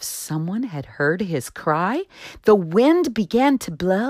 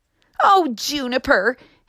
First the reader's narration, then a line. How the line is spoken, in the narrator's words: his brothers and sisters called out